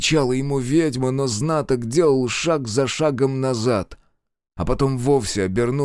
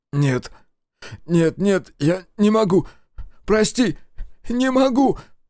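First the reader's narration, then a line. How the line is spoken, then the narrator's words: Sobbing. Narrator (Russian): Рыдая Дема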